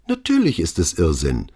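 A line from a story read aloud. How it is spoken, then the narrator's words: Perfectly calm. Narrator (German): antwortete vollkommen ruhig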